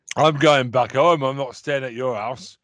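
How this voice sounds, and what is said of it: Put-on Northern Yorkshire accent. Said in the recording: “I gave her a northern accent. I can't do a Scottish accent, so I thought I'd go Yorkshire. ... Wow, I finally got an accent right.”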